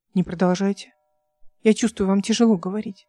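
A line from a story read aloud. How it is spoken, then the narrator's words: Gentle request. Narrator (Russian): мягко попросил Лоралан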